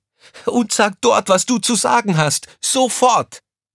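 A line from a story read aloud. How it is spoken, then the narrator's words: Shouting at someone. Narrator (German): schrie Crescentia Rausch sie an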